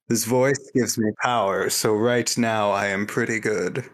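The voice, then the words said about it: Inconsistent impression of another person. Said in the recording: “a bad Irvin impersonation ... doing the voice, even though it's highly inconsistent”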